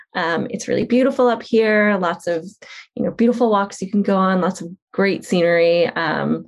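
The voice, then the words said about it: Long Island accent. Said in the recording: “You're going to lose your Long Island accent.”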